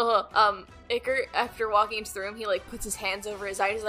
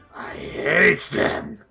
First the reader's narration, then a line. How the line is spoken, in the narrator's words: Garum is currently croaking loudly as he says